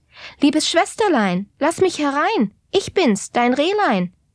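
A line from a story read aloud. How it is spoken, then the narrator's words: Fawn calling out. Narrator (German): das Rehlein … rief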